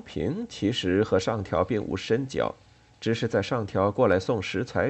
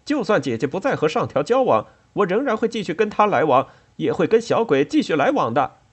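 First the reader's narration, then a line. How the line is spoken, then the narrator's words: Stubborn clamoring. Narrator (Chinese): 但仍挣扎着不肯罢休，仍在叫嚷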